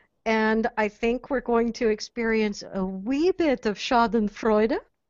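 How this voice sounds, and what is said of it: Word said in German accent. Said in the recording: “which I had to say with that little German accent because it's so much fun”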